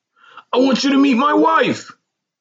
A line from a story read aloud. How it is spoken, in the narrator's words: he said excitedly